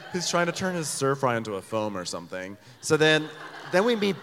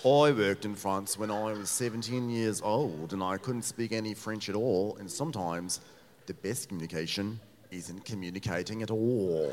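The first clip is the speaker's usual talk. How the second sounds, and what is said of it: Exaggerated Australian accent. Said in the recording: “an Australian accent, which is fun because we always love butchering an Australian accent”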